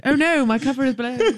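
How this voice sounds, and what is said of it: Posh English accent. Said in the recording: “I've slipped into my posh Guildford accent”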